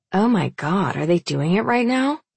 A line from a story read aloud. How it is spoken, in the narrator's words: Reagan gasps